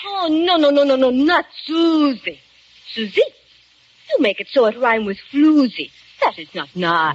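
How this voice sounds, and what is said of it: Put-on French accent. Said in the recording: “will you forget that French accent? ... She's got some funny ideas, accents, and disguises.”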